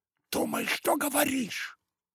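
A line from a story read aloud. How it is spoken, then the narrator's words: Flushed sister hissing back. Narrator (Russian): прошипела в ответ покрасневшая сестра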